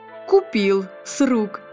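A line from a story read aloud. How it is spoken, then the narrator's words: Amused snort. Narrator (Russian): хмыкнул строитель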